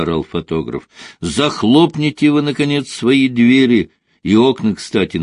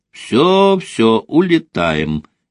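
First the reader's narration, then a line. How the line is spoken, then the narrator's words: Cheerful reply. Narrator (Russian): весело откликнулась Рита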